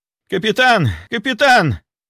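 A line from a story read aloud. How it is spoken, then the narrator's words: Sudden distant yell. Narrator (Russian): вдруг заорал инквизитор Кравченко от холодильных камер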